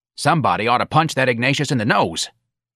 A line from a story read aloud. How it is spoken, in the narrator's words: Santa said eagerly